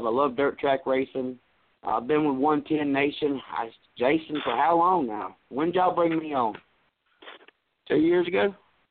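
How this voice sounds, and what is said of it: Raspy voice. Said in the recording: “raspy voice”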